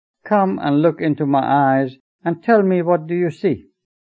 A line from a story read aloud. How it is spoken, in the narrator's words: She laughed heartily and told Ruhullah